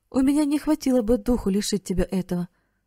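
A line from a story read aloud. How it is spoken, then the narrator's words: Plain. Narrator (Russian): сказала она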